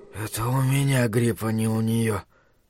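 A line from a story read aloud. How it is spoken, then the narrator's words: Faint semiconscious whisper. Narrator (Russian): прошептал он, вновь выныривая из небытия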